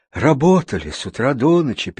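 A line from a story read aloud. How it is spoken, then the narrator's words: Sad sigh. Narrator (Russian): печально вздохнула жена фермера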